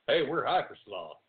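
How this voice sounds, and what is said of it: Put-on Southern American accent. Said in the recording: “put on Southern accent.”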